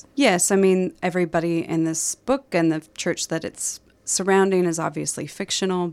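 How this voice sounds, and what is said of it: Slight Minnesota accent. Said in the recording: “you've got a bit of an accent... I am from Minnesota originally”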